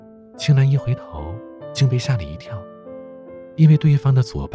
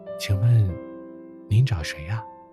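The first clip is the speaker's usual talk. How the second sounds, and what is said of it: Quiet, hushed voice. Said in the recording (Chinese): “小声问道”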